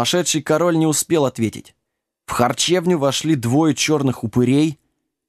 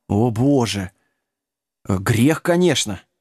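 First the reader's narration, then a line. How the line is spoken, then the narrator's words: Sighing priest. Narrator (Russian): вздохнул священник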